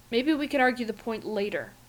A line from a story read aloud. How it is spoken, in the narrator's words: Fraser says irritably